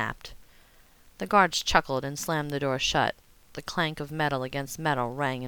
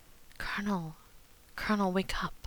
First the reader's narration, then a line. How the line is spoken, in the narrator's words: whispered